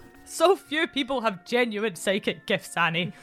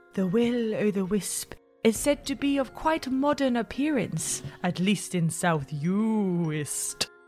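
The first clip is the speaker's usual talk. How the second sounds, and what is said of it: Put-on English accent. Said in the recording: “She was English, so she'll have an English accent”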